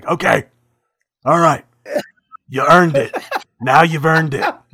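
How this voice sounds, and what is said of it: Impression of Goldberg. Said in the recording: “Oh, that was such a good impression.”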